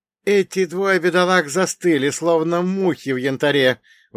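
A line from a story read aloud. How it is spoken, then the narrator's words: Exclaiming. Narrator (Russian): воскликнул Бунге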